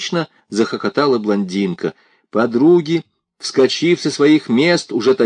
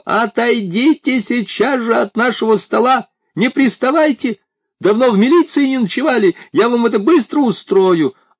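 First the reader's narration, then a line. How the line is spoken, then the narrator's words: Shrill high-pitched shout. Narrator (Russian): Игорь Владимирович неожиданно высоким, визгливым голосом закричал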